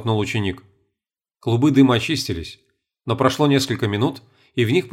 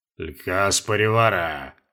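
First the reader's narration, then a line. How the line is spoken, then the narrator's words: Booming drone. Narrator (Russian): прогудел наместник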